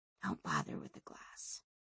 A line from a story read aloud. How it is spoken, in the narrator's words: whispered Sanchia